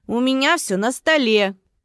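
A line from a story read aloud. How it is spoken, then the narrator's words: Shout, imitating a character. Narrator (Russian): крикнул Алекс на манер дяди Федора из деревни Простоквашино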